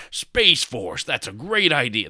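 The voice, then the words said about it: Imitates another person's voice. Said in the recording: “That was a terrible impression.”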